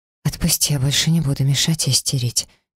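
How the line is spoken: Quiet promise. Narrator (Russian): тихо пообещала я

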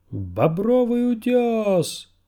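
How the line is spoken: Thin wooden-voiced shout. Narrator (Russian): прокричал он тонким деревящим голосом

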